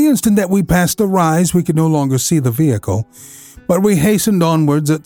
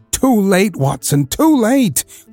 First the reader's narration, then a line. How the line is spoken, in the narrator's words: cried Holmes